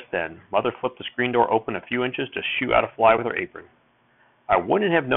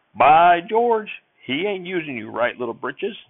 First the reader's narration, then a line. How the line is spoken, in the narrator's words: the sheriff hollered